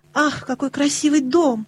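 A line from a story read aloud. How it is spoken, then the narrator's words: Ardent exclamation. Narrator (Russian): горячо воскликнула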